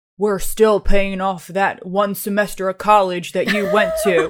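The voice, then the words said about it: Imitates another person's voice. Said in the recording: “that's my dad's, that's my impersonation of my dad.”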